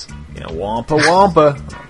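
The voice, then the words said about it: Put-on Southern US accent. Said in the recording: “all the dudes with the kind of southern accents”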